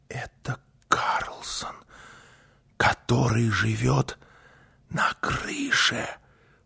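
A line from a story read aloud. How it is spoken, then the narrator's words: Whisper. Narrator (Russian): прошептала Гунила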